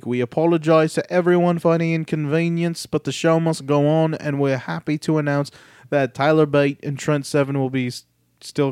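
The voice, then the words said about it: Attempted put-on accent. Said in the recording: “I'm just giving up on that accent.”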